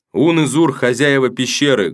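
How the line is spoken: Loud exclamation. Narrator (Russian): громко воскликнул сын быка

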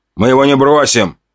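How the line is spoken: Shout. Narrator (Russian): крикнул второй мужик

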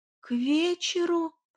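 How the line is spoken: Moaned. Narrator (Russian): простонала я

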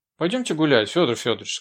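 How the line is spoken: Gently commanding. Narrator (Russian): сказал Кистеру Маша, с той ласковой властью в голосе, которая как будто знает, что вам весело ей покориться

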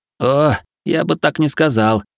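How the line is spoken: Giggle. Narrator (Russian): хихикнул Хироши

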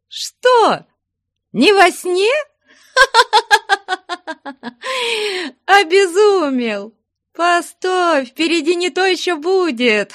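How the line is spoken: Loud full laughter. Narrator (Russian): Хохотала изо всей мочи Фленушка

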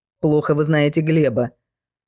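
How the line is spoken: Snapping back. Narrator (Russian): огрызнулась Юля

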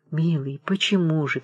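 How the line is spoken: Sad question. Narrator (Russian): печально спросила дочь

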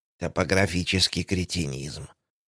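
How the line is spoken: Muttering. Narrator (Russian): пробормотала мисс Джейн

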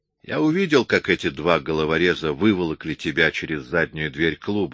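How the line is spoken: Plain. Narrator (Russian): сказал Джо

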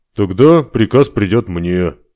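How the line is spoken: Captain sighing. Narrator (Russian): вздохнул капитан

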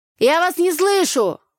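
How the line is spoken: Shouting. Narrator (Russian): вновь крикнул Игорь

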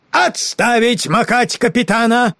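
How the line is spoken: Brisk command. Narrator (Russian): собрался с последними силами и бодро скомандовал

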